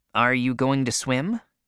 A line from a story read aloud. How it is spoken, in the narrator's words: Tom asked